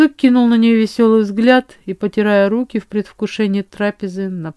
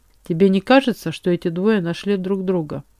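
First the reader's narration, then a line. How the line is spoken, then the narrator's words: Quiet words near ear. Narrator (Russian): тихонько проговорила леди Рюгель, наклоняясь к моему уху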